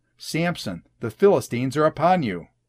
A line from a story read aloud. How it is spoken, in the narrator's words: she cried out